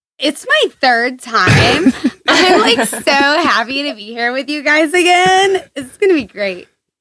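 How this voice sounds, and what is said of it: Valley girl voice. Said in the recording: “talk like a valley girl”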